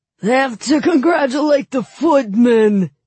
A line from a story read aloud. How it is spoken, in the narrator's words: he roared